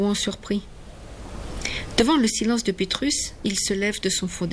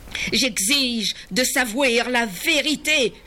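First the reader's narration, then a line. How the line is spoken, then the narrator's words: Shouted. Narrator (French): crie Yann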